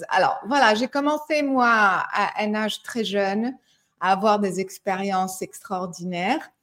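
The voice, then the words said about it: Slight American accent in French. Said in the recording (French): “je suis américaine pour les personnes qui reconnaissent un petit accent”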